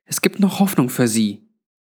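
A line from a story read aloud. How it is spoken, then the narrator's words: Audible whisper. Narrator (German): meinte Granny in hörbarem Flüsterton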